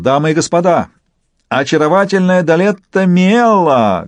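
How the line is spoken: Shouting clown. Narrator (Russian): клоун закричал

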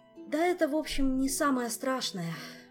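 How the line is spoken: Weary sigh. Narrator (Russian): в очередной раз вздохнул Мафей

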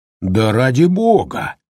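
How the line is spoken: Loud laughter. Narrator (Russian): расхохотался Холлоран

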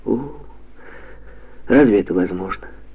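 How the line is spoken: Sighing. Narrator (Russian): вздохнула Катя

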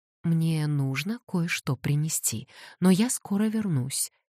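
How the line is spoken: Promising. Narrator (Russian): пообещала она

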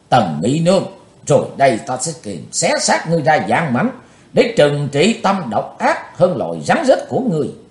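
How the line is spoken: Panicked shout. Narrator (Vietnamese): Chàng hốt hoảng quát

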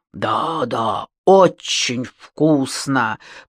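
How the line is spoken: Mumbling. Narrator (Russian): пробормотал

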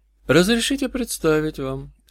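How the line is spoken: Quiet. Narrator (Russian): сказал грешник негромко

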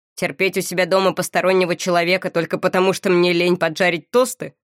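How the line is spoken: Snorting. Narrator (Russian): Моро фыркнул

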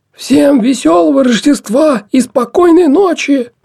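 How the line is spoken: Hoarse shout. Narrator (Russian): Сипло выкрикнул он

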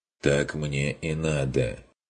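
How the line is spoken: Slightly hoarse reply. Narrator (Russian): чуть севшим голосом отозвался он

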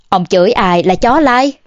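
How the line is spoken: Sudden furious roar. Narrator (Vietnamese): Hình Vận Đạt thình lình trợn mắt giận dữ gào lên với Thôi Văn Đào

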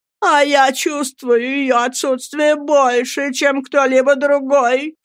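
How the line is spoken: Moaning voice. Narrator (Russian): стонущим голосом проговорила миссис Гумидж

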